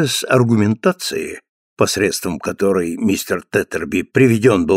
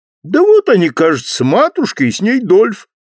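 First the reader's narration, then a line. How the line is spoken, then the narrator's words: Exclaiming. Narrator (Russian): воскликнул Джонни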